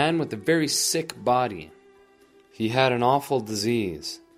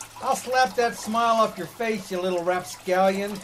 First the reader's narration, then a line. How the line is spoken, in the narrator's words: He yelled